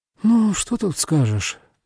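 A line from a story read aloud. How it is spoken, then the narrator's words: Sighing agreement. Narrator (Russian): вздохнула вторе ему Коэси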